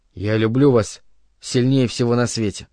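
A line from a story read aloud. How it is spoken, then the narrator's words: Barely audible. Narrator (Russian): Чуть слышно он произнес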